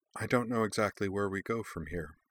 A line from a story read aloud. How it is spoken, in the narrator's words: said quietly